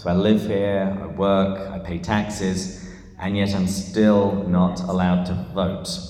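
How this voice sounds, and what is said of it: English accent. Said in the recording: “this is not a San Diegan accent. I am from England”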